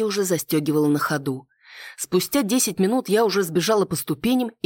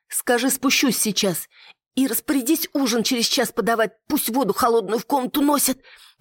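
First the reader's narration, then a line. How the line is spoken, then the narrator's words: Hoarse wheeze. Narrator (Russian): Просипела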